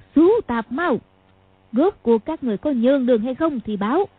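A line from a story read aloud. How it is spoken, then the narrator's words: Harsh shout, gritted voice. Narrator (Vietnamese): Tôn Bà Bà bỗng quát một tiếng, nói gằn giọng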